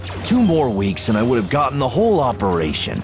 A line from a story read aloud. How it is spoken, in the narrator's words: Tall grumbled